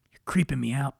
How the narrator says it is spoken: Brian said

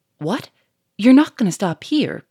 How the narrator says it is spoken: cried Lupin

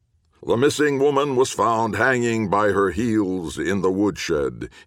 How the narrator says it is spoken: gravely intoned

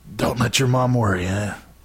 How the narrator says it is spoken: He croaked

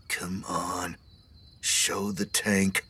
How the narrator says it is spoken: Carlos was whispering to himself, practically muttering

